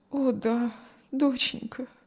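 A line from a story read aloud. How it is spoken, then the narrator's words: Sad mother. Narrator (Russian): грустно ответила мать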